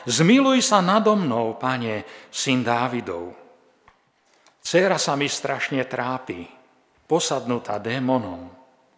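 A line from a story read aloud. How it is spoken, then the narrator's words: Woman crying out. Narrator (Slovak): kanánska žena kričala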